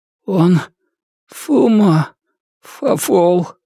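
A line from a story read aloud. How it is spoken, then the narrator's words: Weak, suffering voice. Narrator (Russian): выдавил Джон вялым, страдальческим голосом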